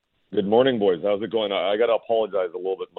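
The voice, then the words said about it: Raspy, strained voice. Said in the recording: “My voice is still healing from last night, having to yell ... your voice might be a little raspy.”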